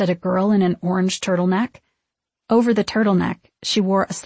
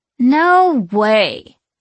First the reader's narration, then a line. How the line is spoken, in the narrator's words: whined her friend